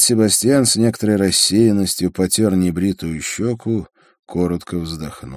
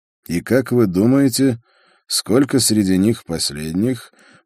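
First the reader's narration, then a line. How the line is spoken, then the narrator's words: Gloomy question. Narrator (Russian): мрачно спросил я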